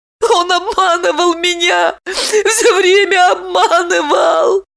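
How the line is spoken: Sobbing, wailing. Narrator (Russian): Всхлипывая, подвывала Липочка

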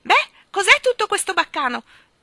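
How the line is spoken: Shrill little voice, approaching. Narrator (Italian): gridò la curiosa vocetta acuta avvicinandosi

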